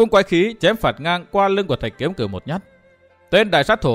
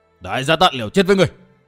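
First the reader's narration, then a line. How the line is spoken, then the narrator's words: Shouted threat. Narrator (Vietnamese): Tên đại sát thủ quát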